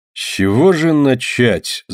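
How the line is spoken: Thoughtful. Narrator (Russian): задумчиво проговорил Кручинин

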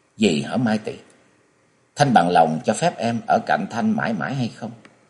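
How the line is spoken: Soft, affectionate. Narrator (Vietnamese): Giọng nói đầy tình tứ ấy, thốt khẽ

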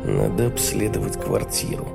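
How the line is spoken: Muttering to oneself. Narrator (Russian): пробормотал я самому себе

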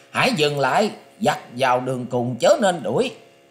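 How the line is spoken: Shout. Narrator (Vietnamese): tiếng quát

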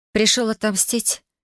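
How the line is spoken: Quiet question. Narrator (Russian): тихо спросила

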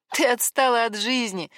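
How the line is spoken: Laughing. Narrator (Russian): смеялась Саня

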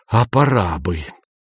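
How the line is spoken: Raised, whistling hiss. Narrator (Russian): Шеф повысил голос до свистящего шипения

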